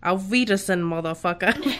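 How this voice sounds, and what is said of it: Bad put-on German accent. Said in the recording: “That's a really bad German accent.”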